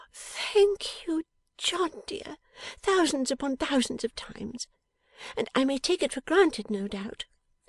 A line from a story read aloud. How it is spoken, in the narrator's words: with a little faltering